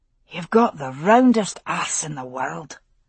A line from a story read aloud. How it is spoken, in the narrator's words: he whispered